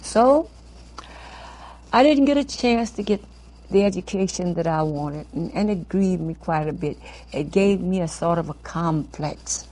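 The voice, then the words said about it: New Orleans accent, Brooklyn-like. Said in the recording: “living in New Orleans, you had a brogue, a very bad brogue ... I'm right back in New Orleans ... Speaking with a Brooklyn accent ... They have a Brooklyn accent down there.”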